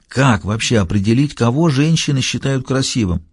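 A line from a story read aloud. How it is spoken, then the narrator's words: Whisper. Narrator (Russian): зашептал Фаулер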